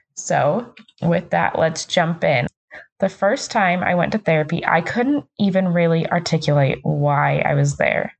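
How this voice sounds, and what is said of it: Lower, hoarse voice. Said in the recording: “I'm getting over a cold, so my voice is a little lower, a little hoarser than usual”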